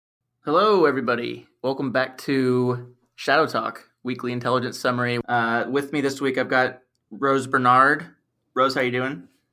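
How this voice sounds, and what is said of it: Croaky voice. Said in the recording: “My voice is a little croaky”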